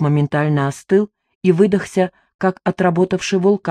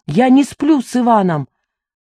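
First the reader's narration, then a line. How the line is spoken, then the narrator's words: Shouting. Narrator (Russian): Я выкрикнула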